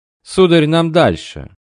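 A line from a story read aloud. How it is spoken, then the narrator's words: Imperturbable servant. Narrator (Russian): невозмутимым тоном сказал ливрейный лакей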